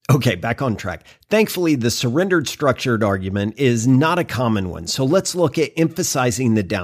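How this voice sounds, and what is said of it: Usual voice. Nothing is said of it.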